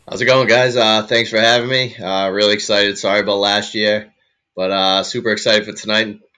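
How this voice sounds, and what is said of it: Slight Boston accent. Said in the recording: “sounds like a little bit of an accent. You aren't happen to be from the Northeast, are you? ... Boston boy, born and bred”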